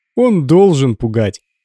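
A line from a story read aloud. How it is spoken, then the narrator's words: Cheerful agreement. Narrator (Russian): весело согласился Гордон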